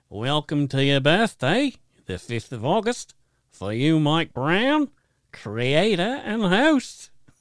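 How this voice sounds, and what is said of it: Attempted Australian accent. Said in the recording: “I don't know if I can read it in an Aussie accent ... I did it a little bit ... it's way too hard”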